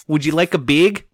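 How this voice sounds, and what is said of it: Imitated Wisconsin accent. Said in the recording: “a lady from Wisconsin ... The accent.”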